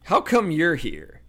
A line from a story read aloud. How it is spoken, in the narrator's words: he said much too loudly